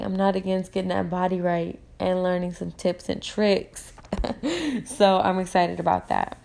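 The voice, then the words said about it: Rough, slightly hoarse voice. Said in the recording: “my voice is sounding a little rough”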